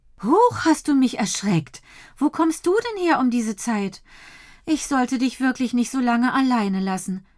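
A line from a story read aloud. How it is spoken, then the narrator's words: Mother's sigh. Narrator (German): seufzt Mama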